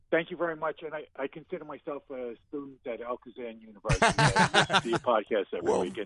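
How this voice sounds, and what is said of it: Long Island New York accent. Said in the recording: “I thought I picked up a Long Island accent there, or New York.”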